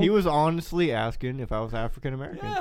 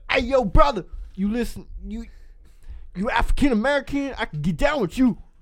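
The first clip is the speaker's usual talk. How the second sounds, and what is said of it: Put-on accent quoting a stranger. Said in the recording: “The accent, bro.”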